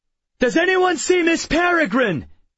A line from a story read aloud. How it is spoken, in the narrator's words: I shouted